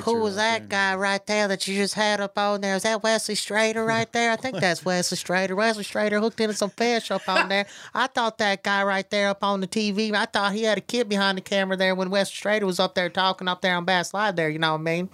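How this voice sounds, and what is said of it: Imitates another person's voice. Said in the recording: “my Wesley Strader impression”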